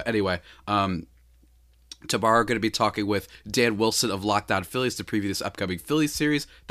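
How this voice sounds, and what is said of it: Sick-sounding, nasal voice. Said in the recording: “Sorry for my voice today. I'm just feeling a little bit sick. ... I did this like nasal spray thing, and it's just been killing me all morning.”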